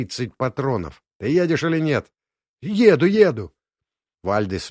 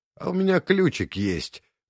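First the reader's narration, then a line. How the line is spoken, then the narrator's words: Grim smiling tone. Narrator (Russian): мрачно улыбнулся белый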